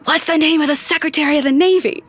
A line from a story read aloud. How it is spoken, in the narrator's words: loudly whispers